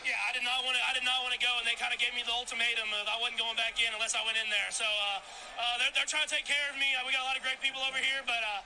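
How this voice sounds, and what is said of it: Mild Southern American accent. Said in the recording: “he has a funky accent because he's from Texas ... It's like a southern accent. ... It's a little accent.”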